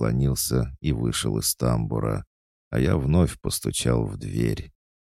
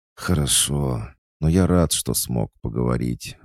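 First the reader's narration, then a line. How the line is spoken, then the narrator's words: Sighing. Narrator (Russian): вздохнул Аникей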